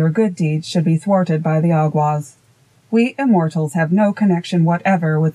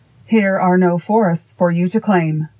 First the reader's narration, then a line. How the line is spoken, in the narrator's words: cried the king angrily